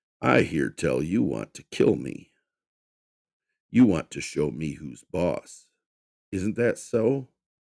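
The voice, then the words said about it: Deep rumbling character voice. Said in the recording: “Damien rumbled in his deep voice.”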